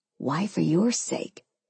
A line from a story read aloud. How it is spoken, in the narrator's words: He whispered